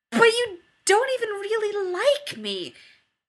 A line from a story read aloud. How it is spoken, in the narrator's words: Jared blurts